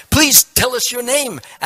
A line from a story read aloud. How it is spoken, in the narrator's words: asked the first demon eagerly